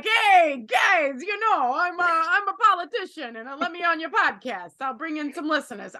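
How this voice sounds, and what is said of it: Put-on New York accent. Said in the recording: “Are you doing a New York accent there? ... I think it was the Fonz.”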